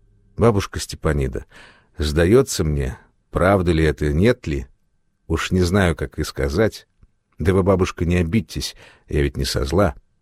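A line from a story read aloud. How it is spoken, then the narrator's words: Very quiet, nervous laugh. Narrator (Russian): Александра Ивановна тихонько засмеялась, дрогнула тонкими плечами от вдруг пробежавшего по спине холодка и говорила очень тихо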